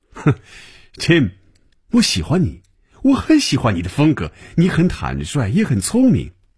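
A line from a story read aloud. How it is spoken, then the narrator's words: Smiling, amused. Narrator (Chinese): 等他停住了笑声，嘴角仍然带着笑容说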